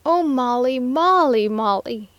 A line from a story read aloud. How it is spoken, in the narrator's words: he shouted